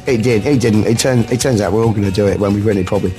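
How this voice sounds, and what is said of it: Croaky, hoarse voice. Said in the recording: “I've got a croaky voice ... I lost my voice ... I'm out of breath.”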